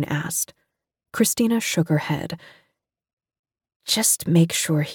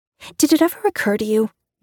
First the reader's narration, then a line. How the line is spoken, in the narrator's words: June said, feeling her voice getting higher